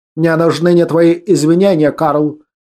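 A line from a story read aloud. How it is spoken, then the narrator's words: Curt clipped remark. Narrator (Russian): отрывисто бросил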